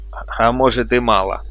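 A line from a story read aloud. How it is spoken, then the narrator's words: Defiant laugh. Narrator (Russian): засмеялся он вызывающе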